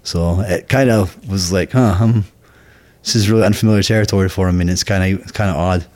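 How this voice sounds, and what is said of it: Thick Scottish accent. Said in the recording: “your Scottish accent is still thick today”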